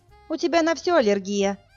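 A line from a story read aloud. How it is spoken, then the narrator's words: Cheerful voice from another room. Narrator (Russian): Весело доносится с кухни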